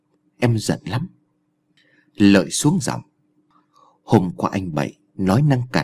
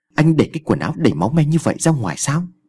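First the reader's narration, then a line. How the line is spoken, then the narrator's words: Loud shout. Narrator (Vietnamese): Sa quay lại và quát lớn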